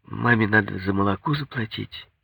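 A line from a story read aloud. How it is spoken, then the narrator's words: With a sigh. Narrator (Russian): Наташа сказала, вздохнув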